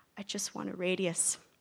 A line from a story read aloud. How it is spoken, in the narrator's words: she muttered towards the drain